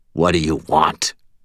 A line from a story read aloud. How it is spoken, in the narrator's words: Aristides growled